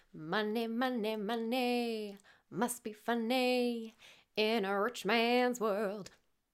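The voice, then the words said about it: Poor sung imitation of a pop group. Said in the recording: “terrible ABBA impression,”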